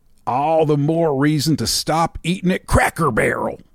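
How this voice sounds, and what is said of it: Exaggerated put-on Southern accent. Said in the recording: “Are you going to do offensive Southern accents? ... Of course I am.”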